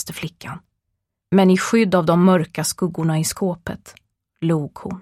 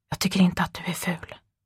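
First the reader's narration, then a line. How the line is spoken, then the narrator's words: Whispering boy. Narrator (Swedish): viskade pojken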